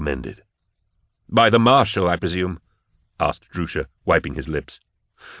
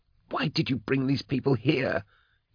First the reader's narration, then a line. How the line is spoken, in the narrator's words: He hissed